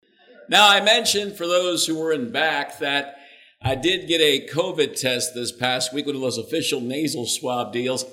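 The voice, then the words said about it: Hoarse voice. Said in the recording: “I'm hoarse. ... I'm having some issues with my throat a bit.”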